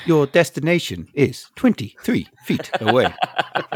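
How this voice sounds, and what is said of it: Imitates a navigation app voice. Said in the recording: “do you do the voice for these things?”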